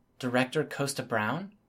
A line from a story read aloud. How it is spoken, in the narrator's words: murmured